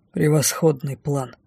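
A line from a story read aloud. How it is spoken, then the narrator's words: Gloomy reply. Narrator (Russian): мрачно отозвался шеф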